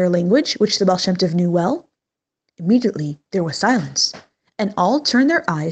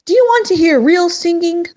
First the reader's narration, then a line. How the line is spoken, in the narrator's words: called out